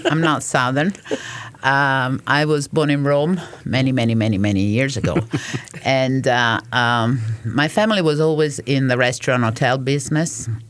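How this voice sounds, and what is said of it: Italian accent. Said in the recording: “As you can probably figure out from my accent, I'm not, I'm ... Italian.”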